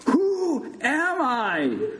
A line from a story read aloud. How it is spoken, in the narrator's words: Big Bird shouted again